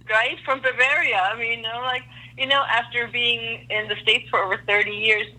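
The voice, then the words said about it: German accent. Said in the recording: “love your accent. I know you're German, correct? ... I try to hide it, but yes, it is.”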